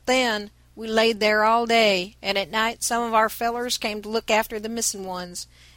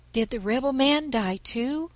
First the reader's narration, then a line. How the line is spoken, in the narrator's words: asked Nan anxiously